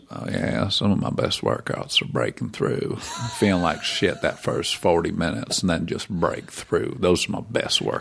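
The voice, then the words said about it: Matthew McConaughey impression. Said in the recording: “Matthew McConaughey ... impersonation? Because it was really, it was pretty solid work.”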